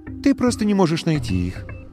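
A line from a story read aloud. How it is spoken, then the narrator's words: Calm. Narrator (Russian): ответила Вильгельмина спокойно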